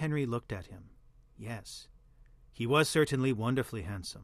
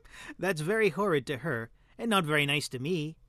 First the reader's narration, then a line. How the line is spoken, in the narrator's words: answered Dorian, laughing